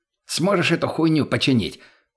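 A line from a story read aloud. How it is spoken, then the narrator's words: Shouted in face. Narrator (Russian): прокричал в лицо профессора мутный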